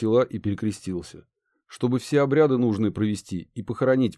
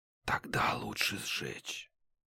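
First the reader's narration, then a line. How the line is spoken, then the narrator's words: Whispering. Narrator (Russian): прошептал Гедеон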